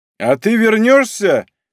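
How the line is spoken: Shouted, overwhelmed. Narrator (Russian): крикнул он, не в силах совладать с собою

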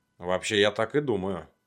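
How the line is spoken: Barking. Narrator (Russian): рявкнул я

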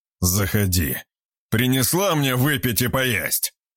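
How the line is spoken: Growling. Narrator (Russian): прорычал он

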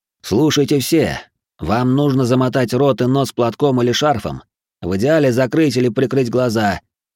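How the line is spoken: Loud. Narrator (Russian): громко сказал я

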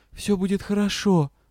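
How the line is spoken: Whispered. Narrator (Russian): прошептала

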